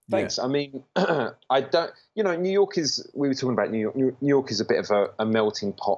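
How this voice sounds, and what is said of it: British male accent. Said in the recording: “The way in which you speak, I would say, is very much identifiable as a British man. ... by your accent.”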